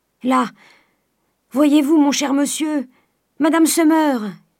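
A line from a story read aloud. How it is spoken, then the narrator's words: Shouted. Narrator (French): cria Nanon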